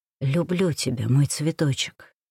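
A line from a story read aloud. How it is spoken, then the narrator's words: Tender whisper. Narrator (Russian): прошептал нежно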